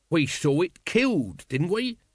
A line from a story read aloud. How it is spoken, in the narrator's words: said Nobby urgently